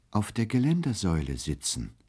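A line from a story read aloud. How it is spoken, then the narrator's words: Gentle reply. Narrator (German): erwiderte er sanft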